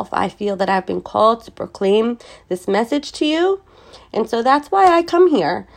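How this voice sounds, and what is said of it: Nasal, congested voice. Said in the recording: “I'm a little nasally. I'm a little congested. I don't have this pretty soft voice ... my voice is a little obnoxious”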